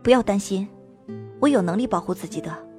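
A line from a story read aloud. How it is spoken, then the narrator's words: Low voice. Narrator (Chinese): 声音低低地说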